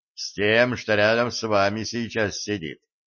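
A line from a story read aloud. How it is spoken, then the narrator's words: Wry grunt. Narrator (Russian): хмыкнул дядя Ваня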